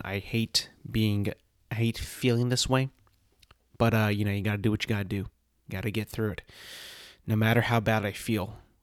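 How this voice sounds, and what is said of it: Slightly congested, unwell-sounding voice. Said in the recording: “You can kind of still hear it in my voice a little bit. It's a little not all the way back yet. I do have a little bit of mucus built up in my throat.”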